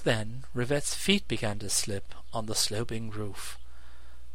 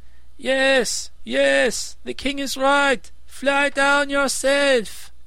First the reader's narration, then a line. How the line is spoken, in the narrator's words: all the people shouted